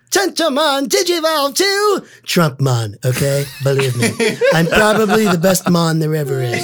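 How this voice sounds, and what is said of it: Imitates another person's voice. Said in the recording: “the best impersonation”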